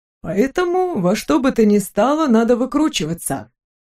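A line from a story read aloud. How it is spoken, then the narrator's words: Cheerful, brisk. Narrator (Russian): бодро завершил Максимилиан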